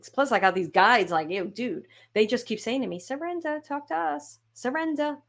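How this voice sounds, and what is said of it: Brooklyn accent. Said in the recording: “They don't have a Brooklyn accent, but I do”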